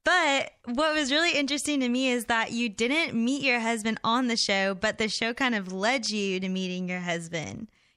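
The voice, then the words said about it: Southern American accent. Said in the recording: “your southern accent. You're from Nashville, right?”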